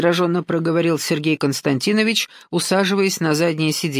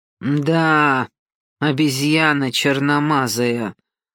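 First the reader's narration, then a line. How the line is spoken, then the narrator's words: Through gritted teeth. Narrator (Russian): процедил Пат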